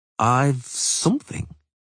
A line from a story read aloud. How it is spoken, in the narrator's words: he said slowly